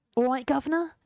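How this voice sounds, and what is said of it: Put-on Cockney accent. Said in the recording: “I can do a bit of maybe Cockney stuff.”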